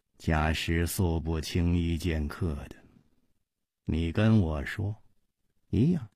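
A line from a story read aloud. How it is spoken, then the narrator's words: Slow. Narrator (Chinese): 冷秋魂缓缓地说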